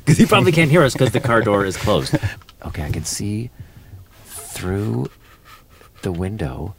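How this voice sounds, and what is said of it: Whispering. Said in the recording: “I don't know why I'm whispering”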